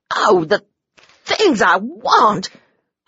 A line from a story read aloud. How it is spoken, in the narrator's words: I stammered because I was so mad I tried to spit all the words out at once